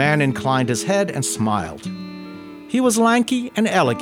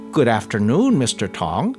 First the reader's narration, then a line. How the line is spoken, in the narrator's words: said Yat-Ho